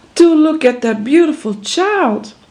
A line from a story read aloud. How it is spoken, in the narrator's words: she exclaimed